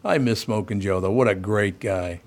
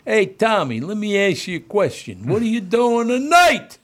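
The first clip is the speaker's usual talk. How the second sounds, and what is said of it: Put-on New Jersey East Coast accent. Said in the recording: “He was from New Jersey... East Coast guys' accent”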